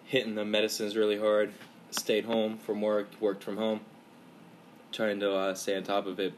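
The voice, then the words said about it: Sounds sick with sore throat. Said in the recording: “I'm fighting a little illness right now. If I sound a little weird on this episode ... severe sore throat”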